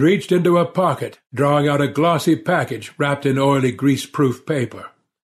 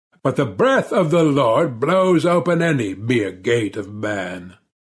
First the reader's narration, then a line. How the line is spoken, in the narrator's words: the priest laughed